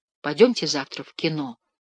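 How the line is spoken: Quiet. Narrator (Russian): тихо сказал я

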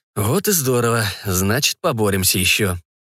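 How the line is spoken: Smirking. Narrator (Russian): усмехнулся Арно

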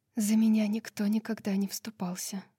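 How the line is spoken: Quiet. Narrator (Russian): Лидия тихо сказала

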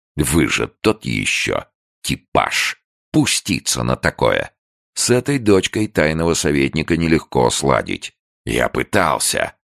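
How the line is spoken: Confessing. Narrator (Russian): признался он

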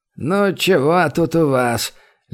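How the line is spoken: Lazy question. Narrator (Russian): лениво поинтересовался лекарь

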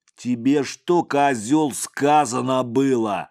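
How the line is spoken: Savage growl. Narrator (Russian): зверея голосом зарычал

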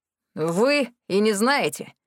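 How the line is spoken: Snorting. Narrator (Russian): хмыкнул

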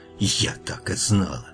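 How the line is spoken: Angry whisper. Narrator (Russian): ведьма не удивилась и только зло шепнула

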